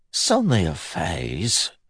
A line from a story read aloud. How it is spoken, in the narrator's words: he mumbled